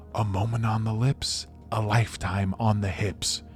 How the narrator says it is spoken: he gasped a surprise

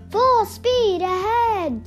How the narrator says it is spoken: Snoopy shouts

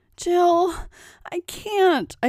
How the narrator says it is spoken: pleaded

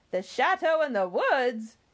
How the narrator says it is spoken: exclaimed the peasant

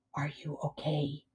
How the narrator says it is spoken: she whispered in his ear

